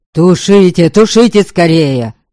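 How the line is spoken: Yelled. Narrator (Russian): завопил Доброня

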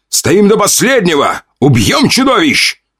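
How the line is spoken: Commander shouting. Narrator (Russian): прокричал командующий

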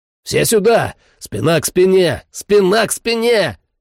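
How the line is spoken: Shouted over gunfire. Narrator (Russian): Заорал я своим ребятам

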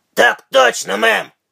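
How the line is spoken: Barked shout. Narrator (Russian): гаркнул он

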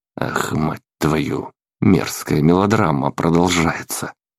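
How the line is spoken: Disgusted mutter. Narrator (Russian): С отвращением пробормотал я

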